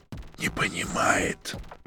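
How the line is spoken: Brother whispering. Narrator (Russian): прошептал брат

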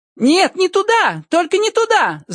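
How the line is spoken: Coarse loud shout. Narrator (Russian): закричала она грузчиком

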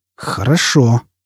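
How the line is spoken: Fierce hiss. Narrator (Russian): свирепо прошипел Фойл

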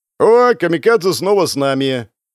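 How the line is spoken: Joyful yell. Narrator (Russian): Радостно заорал Чип

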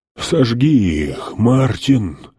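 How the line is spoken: Breathless wheezing. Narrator (Russian): Задыхаясь, хрипел король Билли

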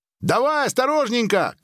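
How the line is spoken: Shouted. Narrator (Russian): крикнула Мария

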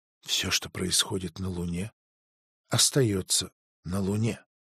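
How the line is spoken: Whispered. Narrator (Russian): прошептала она

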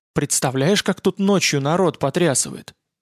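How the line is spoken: Whisper. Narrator (Russian): прошептал шкипер

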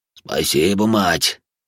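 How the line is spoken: Wheezing man. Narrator (Russian): пуча глаза просипел мужчина

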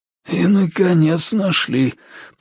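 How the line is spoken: Wheezing. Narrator (Russian): просипел маркиз

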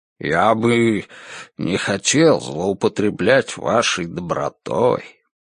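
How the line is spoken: Mumbled. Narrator (Russian): Пробормотал он

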